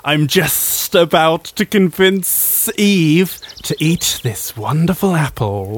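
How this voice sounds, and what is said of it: Snake character voice. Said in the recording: “I do a snake voice?”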